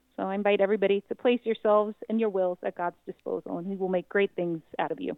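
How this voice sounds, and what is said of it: New York Bronx accent. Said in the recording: “you got a hint as to where she's from ... I still have the accent ... I'm a Bronx girl”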